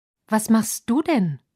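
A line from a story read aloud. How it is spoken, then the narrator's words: Calling out. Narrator (German): rief Wetti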